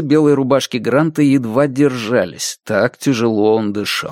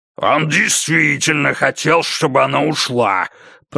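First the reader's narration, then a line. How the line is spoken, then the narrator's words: Growling. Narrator (Russian): прорычал Лэдвелл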